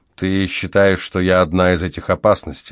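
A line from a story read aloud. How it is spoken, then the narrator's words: Even voice. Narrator (Russian): ровным голосом проговорил я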